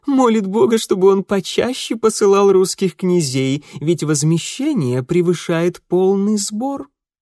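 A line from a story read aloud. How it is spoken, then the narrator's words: Laughing. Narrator (Russian): смеясь прибавила Флорвиль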